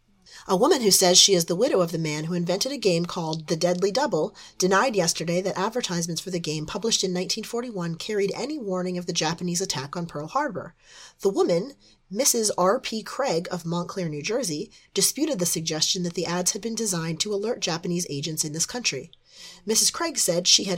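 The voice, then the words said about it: Smoky news reporter voice. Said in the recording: “put on my best reporter voice, which normally would just be my normal voice because I have a Midwestern accent, but now it's a smoky voice”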